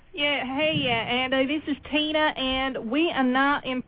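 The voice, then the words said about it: Put-on southern twang. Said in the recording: “I will do my best southern ... twang.”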